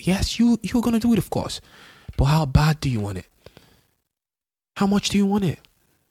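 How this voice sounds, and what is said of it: Raised, louder emphatic voice. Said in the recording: “I think I'm raising my voice.”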